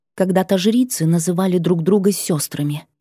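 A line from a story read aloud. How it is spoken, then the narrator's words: Quiet, very insistent. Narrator (Russian): произнесла тихо и очень настойчиво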